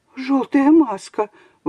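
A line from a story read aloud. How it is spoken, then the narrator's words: Exclaimed. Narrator (Russian): воскликнула она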